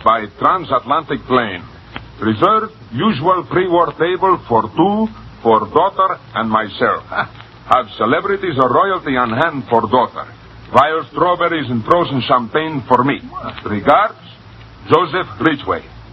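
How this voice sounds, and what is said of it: Put-on Russian accent. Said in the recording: “Russian? ... That's my accent. ... It's excellent.”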